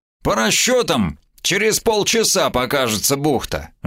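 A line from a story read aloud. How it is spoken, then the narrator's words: Tinny metallic voice. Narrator (Russian): жестяным голосом ответил Маурер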